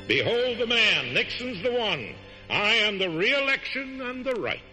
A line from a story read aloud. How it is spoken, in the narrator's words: he cried out